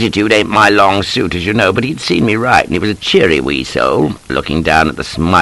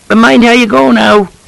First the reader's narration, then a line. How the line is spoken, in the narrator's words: cries he